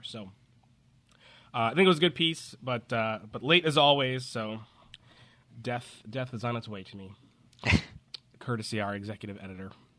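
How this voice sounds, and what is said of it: Congested, slightly stuffy voice. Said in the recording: “I sound a little congested, ... because I'm coming down with a cold”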